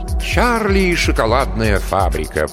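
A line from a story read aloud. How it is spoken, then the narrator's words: Sing-song. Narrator (Russian): произнес Беленький нараспев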